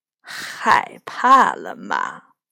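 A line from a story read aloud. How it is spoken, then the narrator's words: Laughing. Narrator (Chinese): 托亚巫师笑了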